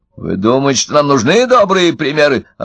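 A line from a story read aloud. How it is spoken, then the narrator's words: Snapping retort. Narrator (Russian): огрызнулся Удалов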